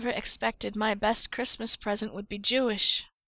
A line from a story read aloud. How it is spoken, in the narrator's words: Charles murmurs against Eric's ear